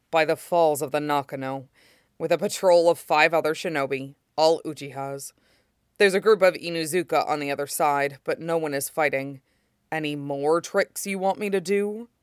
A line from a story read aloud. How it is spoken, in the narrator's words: growls at her, but answers